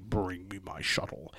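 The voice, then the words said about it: Poor imitation of a film villain. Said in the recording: “that was a terrible impersonation.”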